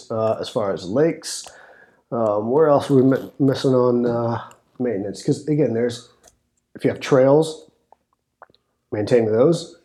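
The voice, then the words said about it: Strained, fading voice. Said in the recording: “sorry, I need to drink my throat. We're on recording episode number 5, so losing my voice.”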